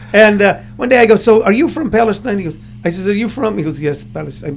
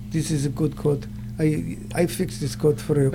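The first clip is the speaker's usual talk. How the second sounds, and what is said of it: Put-on foreign accent. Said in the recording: “Good accent.”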